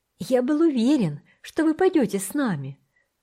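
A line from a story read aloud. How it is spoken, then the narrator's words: Exclaimed. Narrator (Russian): воскликнул Томек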